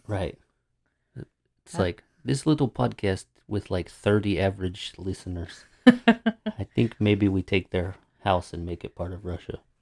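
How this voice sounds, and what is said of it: Bad fake Russian accent. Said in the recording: “a bad Russian accent”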